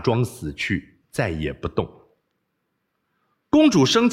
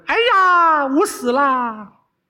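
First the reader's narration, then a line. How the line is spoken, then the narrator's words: Loud cry. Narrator (Chinese): 大叫一声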